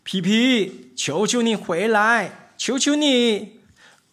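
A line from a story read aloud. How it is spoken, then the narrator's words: Father shouting. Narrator (Chinese): 他的爸爸对他喊叫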